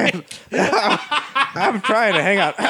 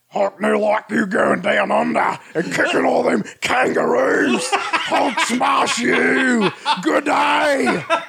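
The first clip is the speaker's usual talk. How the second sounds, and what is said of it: Hulk voice with Australian accent. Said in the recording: “What would a Hulk with an Australian accent Hulk? Sound like?”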